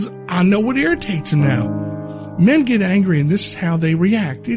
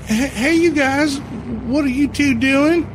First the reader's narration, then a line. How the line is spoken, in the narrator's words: Stacy asked nervously